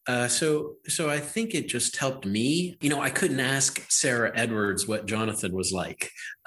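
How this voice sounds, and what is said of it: Western Pennsylvania accent. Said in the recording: “I speak I speak with the uh, Western Pennsylvania accent. You know, I, I've got the dialect.”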